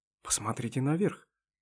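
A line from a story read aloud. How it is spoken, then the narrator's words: Whispered suggestion. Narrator (Russian): шепотом предложил первый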